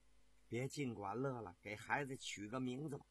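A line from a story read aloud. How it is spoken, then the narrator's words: Sweet, tender wife. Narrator (Chinese): 妻子心里甜丝丝的，柔声地说道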